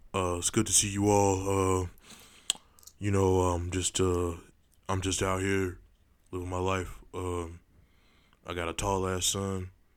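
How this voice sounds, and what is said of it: Imitates another person's voice. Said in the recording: “do a Shaq impression?”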